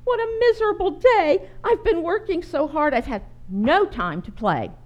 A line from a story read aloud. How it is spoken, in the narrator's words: Bertha sobbed